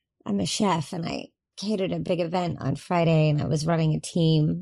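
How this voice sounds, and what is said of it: Slightly raspy voice. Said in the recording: “I'm a little raspy as well ... I was barking lots of orders”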